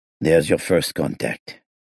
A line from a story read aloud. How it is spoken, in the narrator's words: he muttered